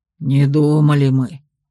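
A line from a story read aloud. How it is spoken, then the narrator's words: Hopeless exhale. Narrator (Russian): безнадежно выдохнул Ранс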